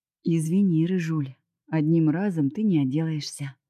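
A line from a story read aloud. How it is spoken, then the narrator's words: Breathy. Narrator (Russian): выдохнул Женя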